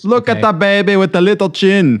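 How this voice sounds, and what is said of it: Put-on Jamaican accent. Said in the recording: “my racist Jamaican impression”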